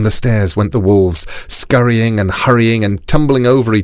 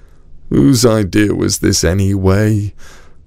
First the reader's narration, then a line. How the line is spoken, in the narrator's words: moaned one of the wolves